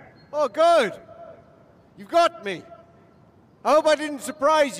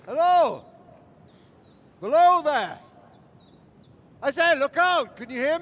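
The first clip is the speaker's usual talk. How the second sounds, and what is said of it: Shouting. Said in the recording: “Why are you shouting like that?”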